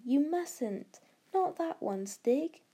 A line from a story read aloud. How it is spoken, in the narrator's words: cried Barney